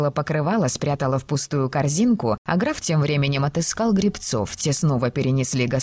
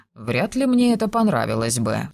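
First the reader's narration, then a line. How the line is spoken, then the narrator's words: Sigh. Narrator (Russian): вздохнул он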